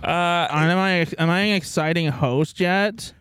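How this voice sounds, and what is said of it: Nasal imitation of another person's voice. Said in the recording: “This is my Selena Gomez impression. ... I think she just has a nasal voice.”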